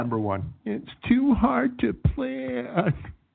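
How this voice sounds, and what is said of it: Very whiny voice. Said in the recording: “I'm going to read each of the five bad reasons in a very whiny voice.”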